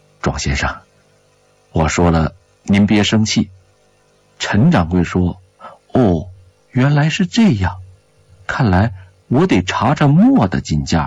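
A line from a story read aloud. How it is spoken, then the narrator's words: Soft, hesitant, awkward. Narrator (Chinese): 蒋志文有些为难，他沉吟片刻，轻声地说道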